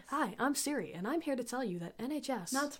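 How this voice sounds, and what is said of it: Robotic Siri-like voice. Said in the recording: “robot voice”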